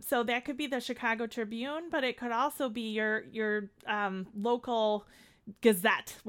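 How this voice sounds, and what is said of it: Chicago accent. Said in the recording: “we're here in Chicago, as my accent always tells everyone”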